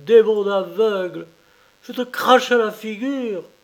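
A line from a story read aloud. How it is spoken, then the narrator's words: Woman yelping shrilly. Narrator (French): glapit la juive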